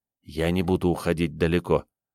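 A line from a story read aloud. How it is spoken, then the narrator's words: Whispered. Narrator (Russian): Ник прошептал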